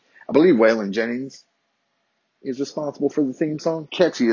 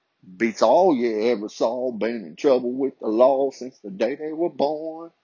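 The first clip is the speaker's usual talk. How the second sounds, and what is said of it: Exaggerated country accent. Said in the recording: “my accent could get even more country”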